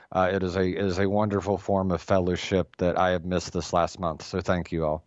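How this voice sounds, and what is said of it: Voice sounds slightly off. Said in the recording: “my voice might still be a little bit off”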